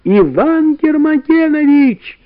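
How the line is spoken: Two voices shouting loudly. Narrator (Russian): Тут Карик и Валя закричали, что было силы

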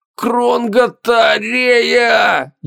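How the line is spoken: Strained, barely squeezed out. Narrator (Russian): еле выдавил из себя он

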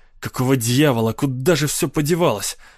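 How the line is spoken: Angry grumbling. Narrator (Russian): Сердито ворчал он

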